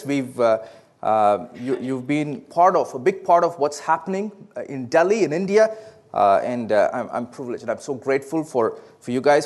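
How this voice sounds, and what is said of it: South Indian accent. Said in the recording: “my accent is a little different, right? Believe it or not, it is actually a southern accent. It is from the southern part of India.”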